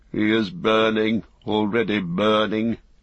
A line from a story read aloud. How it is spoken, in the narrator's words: he said sadly